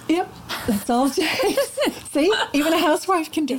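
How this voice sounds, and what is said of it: American accent. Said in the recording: “as you can hear from my accent, I was born in the States”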